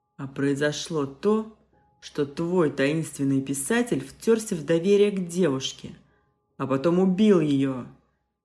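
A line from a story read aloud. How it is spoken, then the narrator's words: Barking. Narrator (Russian): рявкнул Малышев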